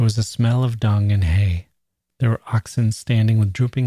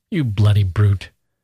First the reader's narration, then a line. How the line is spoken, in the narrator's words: Gusev said angrily